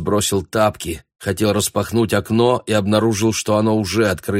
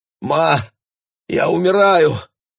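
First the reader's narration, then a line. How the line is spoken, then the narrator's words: Anguished feverish cry. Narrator (Russian): воскликнул он, обливаясь потом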